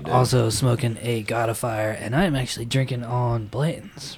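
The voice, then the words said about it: Weak, recovering voice. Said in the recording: “my voice is. I, I didn't have a voice up until today”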